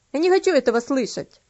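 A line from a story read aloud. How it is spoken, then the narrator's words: Boy grumbling. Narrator (Russian): пробурчал мальчик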